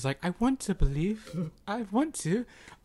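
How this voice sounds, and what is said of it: Put-on British accent. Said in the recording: “Not that he's British. I don't know why I hear that accent.”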